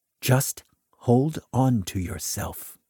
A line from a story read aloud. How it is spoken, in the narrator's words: said